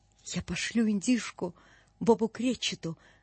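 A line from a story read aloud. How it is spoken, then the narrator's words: Muttered, then delighted laughter. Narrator (Russian): пробормотал Скрудж и от восторга так и покатился со смеху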